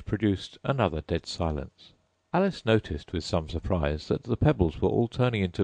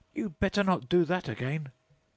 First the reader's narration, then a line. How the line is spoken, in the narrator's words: she said to herself, and shouted out